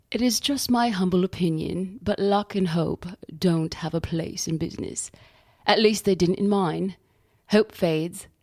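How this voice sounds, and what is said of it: Put-on refined English accent, not good. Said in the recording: “Mark is a very refined English gentleman, so even though my English accent isn't very good, I'm going to give it a whirl.”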